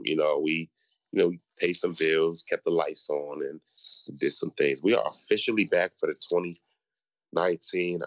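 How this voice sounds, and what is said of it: Deep voice, sounds a little sick. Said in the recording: “I'm a little under the weather, so I sound a little funny ... deep voice ... sounding real masculine”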